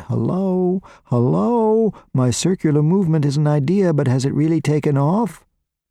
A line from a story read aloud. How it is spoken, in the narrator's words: Maurice screaming out